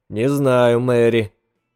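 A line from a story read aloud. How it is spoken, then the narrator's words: Gloomy answer. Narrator (Russian): мрачно ответил он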